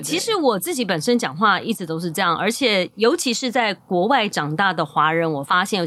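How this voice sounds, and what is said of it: Slight ABC American-born Chinese accent. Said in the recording (Chinese): “你是因为要美式教育，所以会有这种 A B C 口音吗？ ... 有一点”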